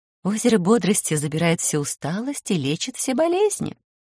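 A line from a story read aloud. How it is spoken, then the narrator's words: Gentle, affectionate. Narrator (Russian): ласково сообщила Дриада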